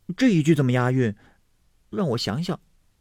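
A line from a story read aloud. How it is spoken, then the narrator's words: Laughing. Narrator (Chinese): 湘云笑道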